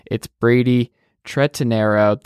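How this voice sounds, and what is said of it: Speaks a name very slowly. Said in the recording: “I said it very slowly.”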